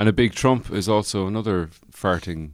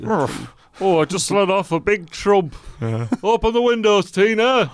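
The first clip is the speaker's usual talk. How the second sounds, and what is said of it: Put-on Northern English accent. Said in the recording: “you always go for that North of England accent”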